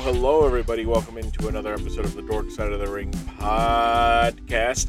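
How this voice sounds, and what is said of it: Strained, off-sounding voice from yelling. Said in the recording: “My voice sounds off is because last night, as I record this, I was at the Sixers game, and I was yelling feverishly, ferociously”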